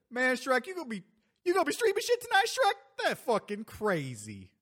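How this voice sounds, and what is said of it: Imitates the Donkey cartoon character. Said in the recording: “I'll do a donkey impersonation ... Eddie Murphy”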